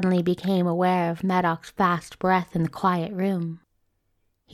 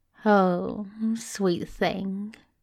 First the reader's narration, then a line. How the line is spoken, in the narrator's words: Crowley purred, his lips just inches away from Medoc's ear